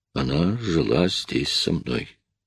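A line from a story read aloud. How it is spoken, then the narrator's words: Quiet speech. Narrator (Russian): тихо проговорил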